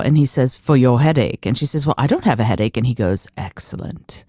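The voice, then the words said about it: Put-on British accent. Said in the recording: “British accent, by the way.”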